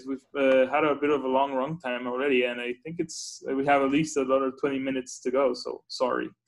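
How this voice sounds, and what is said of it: Speaks with a noticeable accent. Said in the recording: “I don't know how my accent plays on audio... you do have an accent, but it sounds great”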